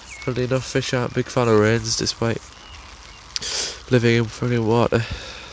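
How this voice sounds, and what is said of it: English accent. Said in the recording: “I'm from England, by the way, if you can tell by the accent”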